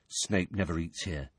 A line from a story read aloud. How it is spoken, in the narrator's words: Ron told Harry quietly